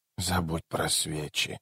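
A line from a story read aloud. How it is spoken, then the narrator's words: Girl's muffled, strange mutter. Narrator (Russian): пробормотала девочка глухим, странным голосом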